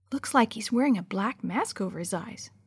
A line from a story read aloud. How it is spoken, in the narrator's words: Sammy whispered back